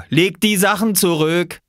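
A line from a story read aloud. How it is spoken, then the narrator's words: Call. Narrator (German): rief Viktor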